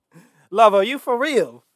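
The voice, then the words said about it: Put-on British accent. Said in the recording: “let's see if I can do it in the British accent.”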